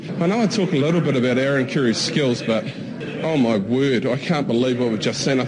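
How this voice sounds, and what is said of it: Strong, hard-to-understand accent. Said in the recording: “the accent, I couldn't understand a word”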